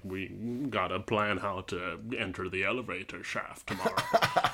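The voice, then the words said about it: Imitates another person's voice. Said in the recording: “the Sean Connery accent”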